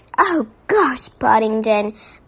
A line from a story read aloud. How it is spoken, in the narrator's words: groaned Judy